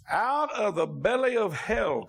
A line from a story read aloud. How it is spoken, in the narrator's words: cried I